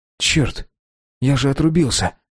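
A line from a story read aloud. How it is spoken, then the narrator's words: Muttering. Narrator (Russian): пробормотал Дима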